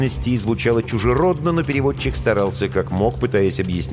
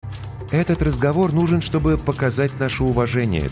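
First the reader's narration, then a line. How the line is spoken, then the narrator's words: Calm reply. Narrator (Russian): также спокойно отозвалась капитан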